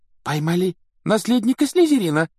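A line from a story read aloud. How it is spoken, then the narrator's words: Girl's exclamation. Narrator (Russian): воскликнула какая-то девушка за столом Когтеврана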